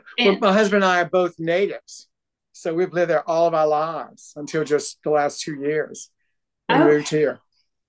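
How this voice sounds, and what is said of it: New Orleans accent. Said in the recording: “you can't tell with this accent.”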